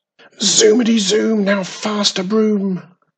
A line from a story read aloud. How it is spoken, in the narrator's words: shouted Wisley Witch